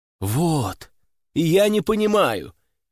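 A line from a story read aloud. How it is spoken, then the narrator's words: Exclaiming. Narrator (Russian): воскликнул я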